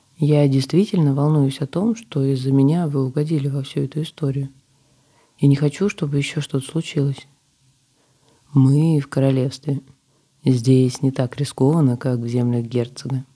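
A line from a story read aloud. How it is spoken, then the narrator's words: Plain. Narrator (Russian): ответил мужчина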